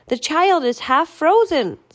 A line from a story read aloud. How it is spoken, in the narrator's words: someone shouted